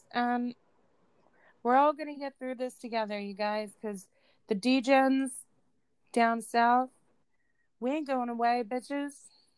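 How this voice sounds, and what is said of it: Slightly raspy voice. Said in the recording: “I sound much better. I've got a little bit of a rasp going on”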